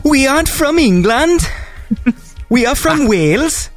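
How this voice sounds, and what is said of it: Exaggerated put-on Welsh accent. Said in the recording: “my Wales voice, I'm not actually doing a real Wales person. I'm doing an impression of a girl who was playing a Welsh character ... she was probably doing a bad Welsh accent”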